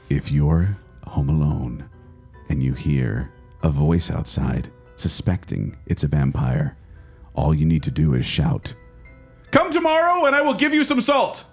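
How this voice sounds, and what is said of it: Spooky, scary storytelling voice. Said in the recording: “let me get my scary voice on now.”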